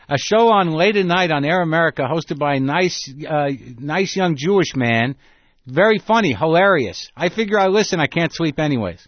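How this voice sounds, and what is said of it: Put-on elderly Jewish woman accent. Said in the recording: “two elderly Jewish women say ... Why am I doing an accent?”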